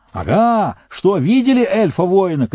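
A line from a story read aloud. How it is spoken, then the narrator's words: Shouting. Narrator (Russian): кричал он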